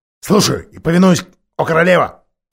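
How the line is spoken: Wolf growling. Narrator (Russian): прорычал волк

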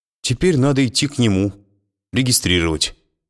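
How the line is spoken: Sighing. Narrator (Russian): вздохнула она

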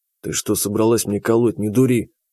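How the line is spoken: Quiet. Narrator (Russian): Так же тихо сказал я

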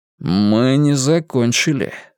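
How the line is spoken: Sudden cold statement. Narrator (Russian): вдруг холодно сказал он, и в глазах его снова полыхнул огонь злости

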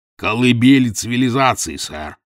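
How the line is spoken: Grumbling. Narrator (Russian): проворчал Челленджер

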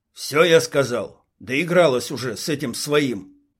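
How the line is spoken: Snorting, grimacing finish. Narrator (Russian): Рейдер фыркнул в усы и, скривившись, докончил

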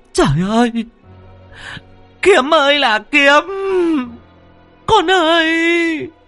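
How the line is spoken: Shrieking wail. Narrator (Vietnamese): Bà rú lên một tiếng

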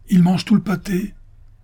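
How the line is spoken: Innkeeper exclaiming. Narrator (French): s'écria l'aubergiste

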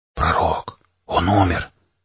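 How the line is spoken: Whisper. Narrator (Russian): прошептал механик

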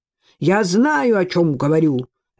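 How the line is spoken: Barking. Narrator (Russian): рявкнул Кан

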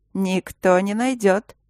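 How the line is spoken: Breathy exhale. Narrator (Russian): Макс выдохнул

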